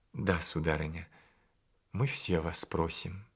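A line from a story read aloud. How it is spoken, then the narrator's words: Timid request. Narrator (Russian): робко попросил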